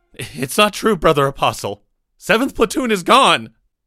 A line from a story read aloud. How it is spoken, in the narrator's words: Micah desperately attempted to explain